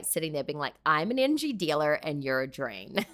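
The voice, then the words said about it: Put-on American Valley Girl accent. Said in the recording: “Is that your American accent? ... I don't know why I became American, but generally my American accent is ... I'm told that's like very Valley Girl”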